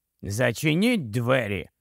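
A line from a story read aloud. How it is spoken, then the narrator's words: Angry grumble. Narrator (Ukrainian): знову сердито буркнув Джейкоб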